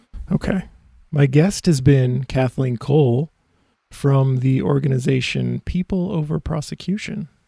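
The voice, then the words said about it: Strained, fading voice. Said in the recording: “I'm losing my voice here 1 hour and 5 minutes in”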